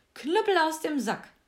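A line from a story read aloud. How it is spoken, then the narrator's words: Called out. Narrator (German): rief er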